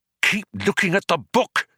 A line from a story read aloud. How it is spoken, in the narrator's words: he hissed urgently